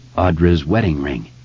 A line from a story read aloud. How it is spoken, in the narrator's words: he said